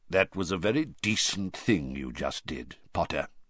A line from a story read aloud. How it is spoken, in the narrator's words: Moody said quietly